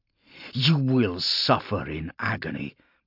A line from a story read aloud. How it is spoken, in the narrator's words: Polixis snarled, spittle flecking his lips